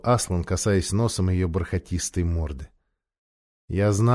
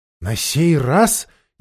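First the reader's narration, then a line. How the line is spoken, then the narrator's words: Frightened repetition. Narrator (Russian): испуганно повторила Аравита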